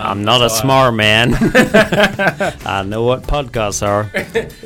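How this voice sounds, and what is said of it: Bad put-on American accent. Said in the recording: “Awful American accent.”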